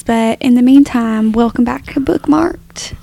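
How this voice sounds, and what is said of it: Put-on Southern American country accent. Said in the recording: “put on a country accent ... sweet Southern Belle American girl”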